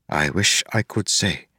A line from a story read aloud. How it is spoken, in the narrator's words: Harmony replied